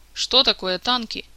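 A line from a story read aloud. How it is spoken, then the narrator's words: Serious, slightly alarmed question. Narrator (Russian): вдруг резко прекратил улыбаться и очень серьезно, даже слегка встревоженно спросил в ответ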